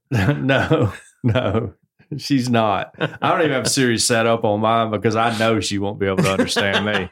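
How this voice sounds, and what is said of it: Southern accent. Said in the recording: “Siri's not that good at Southern accents ... I have this accent.”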